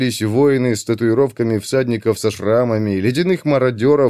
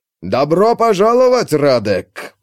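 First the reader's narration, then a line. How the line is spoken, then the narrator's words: Roaring. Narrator (Russian): проревел Иван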